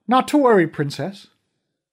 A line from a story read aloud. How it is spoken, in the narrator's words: The same voice from the crowd called out